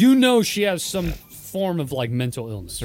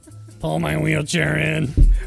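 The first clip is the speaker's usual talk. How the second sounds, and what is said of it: Robotic character voice. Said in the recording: “robot voice”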